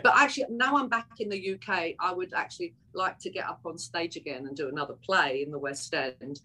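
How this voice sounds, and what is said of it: Cockney London accent. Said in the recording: “she's a Cockney ... I'm actually a true Cockney ... I'm more Cockney now than I've been in decades ... if I talk like this, I'd have to come with subtitles”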